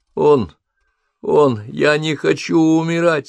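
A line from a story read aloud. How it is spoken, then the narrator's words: Sobbing, forced out. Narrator (Russian): всхлипывая, выдавил из себя Джейсон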